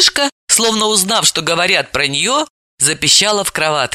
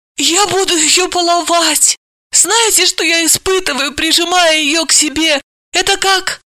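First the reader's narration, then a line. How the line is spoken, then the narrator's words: Moaning. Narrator (Russian): Галина ... простонала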